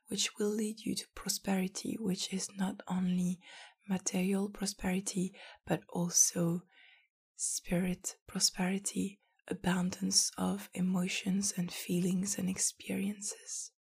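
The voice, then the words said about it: Strained, partly lost voice. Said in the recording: “sorry for my voice. ... took it away from me”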